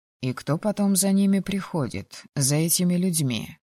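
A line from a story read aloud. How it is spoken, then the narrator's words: Quiet question. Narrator (Russian): Негромко спросил Логинов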